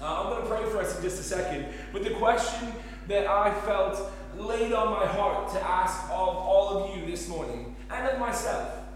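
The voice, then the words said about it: Speaks with a noticeable accent. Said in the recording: “I'm relatively fast, though I have slowed down through the years. And I'm intentionally going a bit slower today as well, because I know that if you're not used to me and my tones and my accent, you might lose half of what I say”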